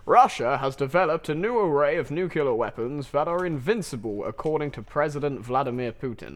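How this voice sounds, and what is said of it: Newsreader voice. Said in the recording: “in your best news voice”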